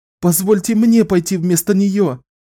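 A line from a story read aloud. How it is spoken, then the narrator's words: Pleading. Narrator (Russian): Взмолилась сестра Георгия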